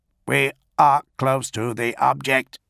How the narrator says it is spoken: one of them reported to the Tetrarch in a reedy, augmetic tone

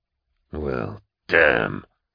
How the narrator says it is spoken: Nail hissed

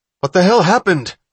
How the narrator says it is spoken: Hatch cried

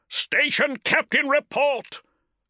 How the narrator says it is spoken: bellowed Cestus

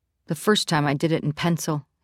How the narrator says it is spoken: he says

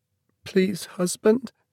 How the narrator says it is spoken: cried, sobbing

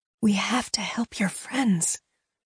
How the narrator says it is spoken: Leia whispered

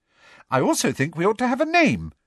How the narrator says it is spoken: said brightly

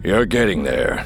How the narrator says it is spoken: said, his voice deep, rumbling

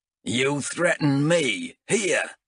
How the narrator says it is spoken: snarled Azrek

